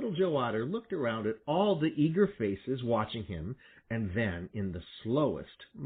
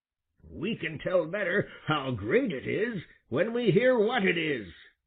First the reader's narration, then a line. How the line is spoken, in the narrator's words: replied Grandfather Frog testily